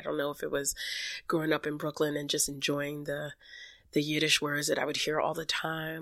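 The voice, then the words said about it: Congested, unsteady voice from cold. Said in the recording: “I have a little bit of a cold slash cough going on, so my voice is like all over the place”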